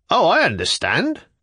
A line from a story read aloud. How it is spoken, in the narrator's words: cried a third